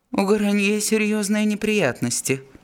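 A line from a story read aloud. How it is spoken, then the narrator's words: Dry male answer. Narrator (Russian): сухо ответил Фермон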